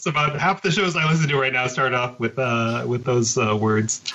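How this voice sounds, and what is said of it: Usual voice. Nothing is said of it.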